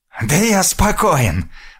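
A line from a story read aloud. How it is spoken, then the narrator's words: Hoarse rasp. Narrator (Russian): прохрипел Россос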